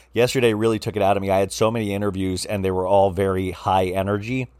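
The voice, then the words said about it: Slightly raspy voice. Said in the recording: “my voice is a little raspy. ... I think you would hear a little rasp in my voice”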